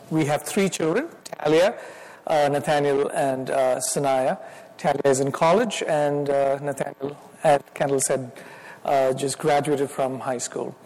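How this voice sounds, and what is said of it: Indian accent. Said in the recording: “I will still have my Indian accent. So if any of you have any problems understanding”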